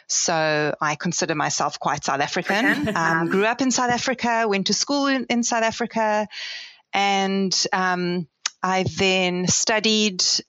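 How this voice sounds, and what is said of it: South African accent. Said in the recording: “as you can probably hear from my accent, I'm from South Africa originally.”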